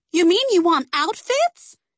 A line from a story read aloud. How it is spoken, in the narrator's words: Cece cried